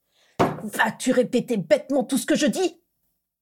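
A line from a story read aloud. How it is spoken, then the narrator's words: Sudden hiss. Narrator (French): siffla soudain Jedusor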